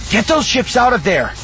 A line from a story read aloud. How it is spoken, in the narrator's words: Shigar shouted into the subspace communicator